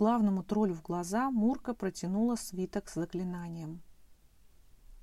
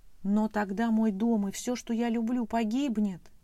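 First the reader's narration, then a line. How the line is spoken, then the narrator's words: Terrified exclamation. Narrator (Russian): в ужасе воскликнула Мурка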